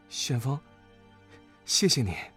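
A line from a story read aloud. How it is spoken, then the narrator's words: Choked sobbing. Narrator (Chinese): 黄冬儿……哽咽着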